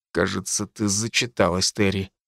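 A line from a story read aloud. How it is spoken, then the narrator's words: Forced-out words. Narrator (Russian): выдавил я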